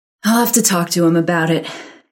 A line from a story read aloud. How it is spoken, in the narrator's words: Karen sighed, as if she didn't have enough to do